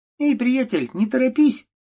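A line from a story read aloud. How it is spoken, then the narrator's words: Squeaky child's voice. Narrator (Russian): пропищал ребенок в клоунской маске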